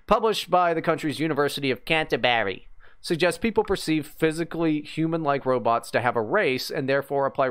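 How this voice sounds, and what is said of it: New Zealand accent. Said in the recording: “From New Zealand. I talk like this. It's like an Australian accent, but worse.”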